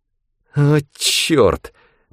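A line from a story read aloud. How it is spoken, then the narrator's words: Hiss. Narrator (Russian): прошипел Рэндом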